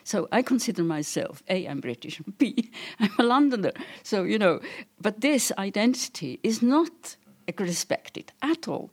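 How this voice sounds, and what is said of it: Non-native foreign accent. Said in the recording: “From my accent, you can see that I am not born here”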